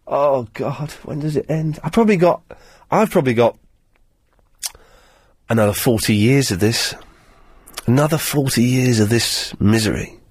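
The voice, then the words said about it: Voice affected by a cold. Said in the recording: “I've got a cold. I've still got a cold. It's better than it has been”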